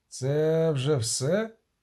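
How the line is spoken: Muffled groan. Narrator (Ukrainian): застогнав з-під кокпіта Кевенард Ван Фліт

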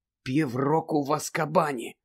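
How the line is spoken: Stunned whisper. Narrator (Ukrainian): приголомшено прошепотів Гаррі

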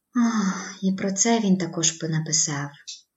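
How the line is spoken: Sighing. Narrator (Ukrainian): зітхнула

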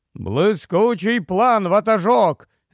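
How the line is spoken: Several voices shouting. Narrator (Ukrainian): закричала решта голосів

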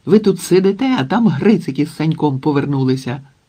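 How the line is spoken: Exclaimed. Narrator (Ukrainian): вигукнув

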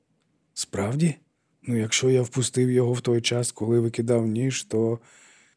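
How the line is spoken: Exhausted sigh. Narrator (Ukrainian): Тео зітхнув, він виснажився

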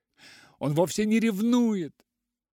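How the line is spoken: Sobbing. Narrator (Russian): всхлипнула она

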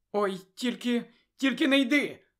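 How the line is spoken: Exclaimed, close to tears. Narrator (Ukrainian): вигукнула Чо, готова знову розплакатися

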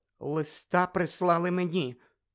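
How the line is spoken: Trembling, forced-out words. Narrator (Ukrainian): тремтячим голосом витиснула з себе тітка Петунія

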